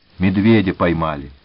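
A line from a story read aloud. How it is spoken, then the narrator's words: Calm. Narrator (Russian): спокойно сказал Гончаренко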